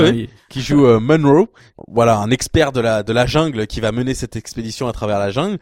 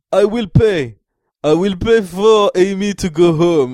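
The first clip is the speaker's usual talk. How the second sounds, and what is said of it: Put-on Russian Ukrainian accent. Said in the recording (French): “il a un accent russe ukrainien mais venu de nulle part”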